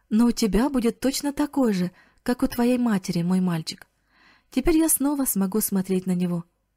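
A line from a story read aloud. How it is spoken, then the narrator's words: Plain, old man. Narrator (Russian): сказал дедушка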